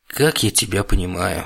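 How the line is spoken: Sighing. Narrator (Russian): вздохнул я

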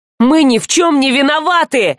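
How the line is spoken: Indignant shouting. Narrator (Russian): возмущенно орал он

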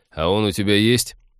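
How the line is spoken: Mocking interruption. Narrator (Russian): насмешливо перебил ее Тед

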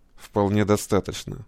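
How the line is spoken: Through gritted teeth. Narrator (Russian): сквозь зубы ответил командир

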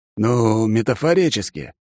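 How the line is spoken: Relieved exhale. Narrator (Russian): командир облегченно выдохнул и продолжил

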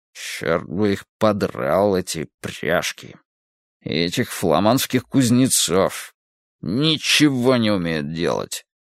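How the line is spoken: Muttering. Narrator (Russian): бормоча

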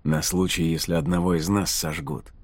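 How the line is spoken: Distant mutter. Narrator (Russian): пробормотал Ридок где-то впереди

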